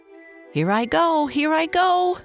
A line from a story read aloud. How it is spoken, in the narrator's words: shouted Dave